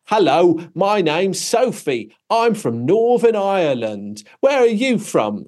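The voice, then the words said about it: Bad thick British Cockney accent. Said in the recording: “thick sort of British Cockney accent, really bad one”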